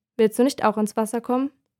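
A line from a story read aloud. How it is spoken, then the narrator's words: Plain. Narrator (German): fragt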